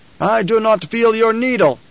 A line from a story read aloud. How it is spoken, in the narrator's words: shouted